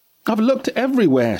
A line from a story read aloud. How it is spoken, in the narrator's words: she shouted